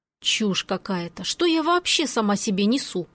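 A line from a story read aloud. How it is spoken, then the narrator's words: Indignant mutter. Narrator (Russian): Возмущенно пробормотала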